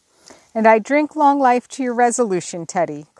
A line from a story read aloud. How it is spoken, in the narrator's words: cried Joe